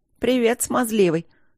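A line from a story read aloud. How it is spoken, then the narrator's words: Snide smiling tone. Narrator (Russian): ехидно улыбнулась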